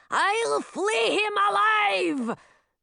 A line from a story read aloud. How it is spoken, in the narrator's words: The other two heads roared in agreement